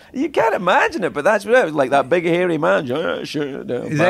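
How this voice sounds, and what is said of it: Usual voice. Nothing is said of it.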